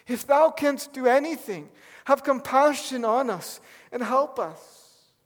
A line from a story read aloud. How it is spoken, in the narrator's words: he pleads with Jesus